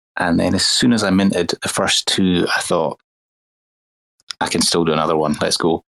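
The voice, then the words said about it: Smooth Scottish accent. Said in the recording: “I can listen to your voice all day. I don't know what it is about your accent, man. ... It's the British accent. It's the smoothest thing on earth. ... It's the clean water we've got up in Scotland.”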